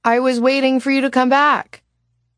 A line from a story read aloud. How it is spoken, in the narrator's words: Celine said loudly and in English so Robert would be sure to hear